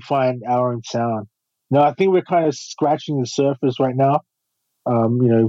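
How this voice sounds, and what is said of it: Natural Australian accent. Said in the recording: “our accent, natural accent ... Australian”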